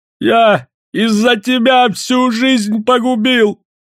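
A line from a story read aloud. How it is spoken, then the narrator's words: Sudden shout. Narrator (Russian): Вдруг закричал он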